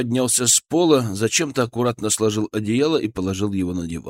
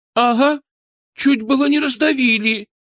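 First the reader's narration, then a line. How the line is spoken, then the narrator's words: Hurt sob. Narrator (Russian): Обиженно всхлипнула та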